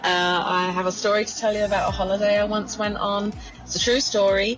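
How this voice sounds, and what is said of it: Very strong Dublin accent. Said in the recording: “Got a very strong Dublin accent, doesn't she? ... Very strong.”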